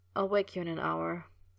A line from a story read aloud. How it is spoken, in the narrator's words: he murmured, nearly asleep already